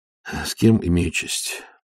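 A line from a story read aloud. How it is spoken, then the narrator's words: Tired question. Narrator (Russian): спросил Ваймс, устало моргая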